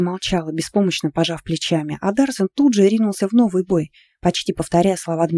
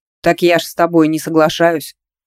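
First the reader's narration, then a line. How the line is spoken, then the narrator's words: Flattered man smirking. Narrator (Russian): хмыкнул польщенный мужчина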